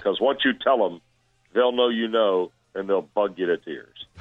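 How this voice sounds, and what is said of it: Impression of John Ward. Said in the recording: “very good impersonation”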